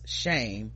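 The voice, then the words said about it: Impression of Septa Unella saying shame. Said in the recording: “In my best Unella Deceptor voice,”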